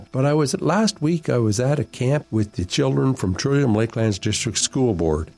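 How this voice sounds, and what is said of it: Deeper, fuzzy voice from a cold. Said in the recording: “I've got a touch of a cold ... my voice is a little bit deeper and a little bit fuzzier”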